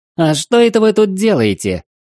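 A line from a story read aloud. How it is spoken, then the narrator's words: High little voice from behind. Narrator (Russian): раздался вопрос высоким голоском у меня из-за спины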